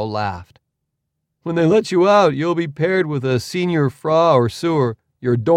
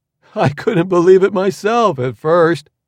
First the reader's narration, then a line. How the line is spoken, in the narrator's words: Leo said, laughing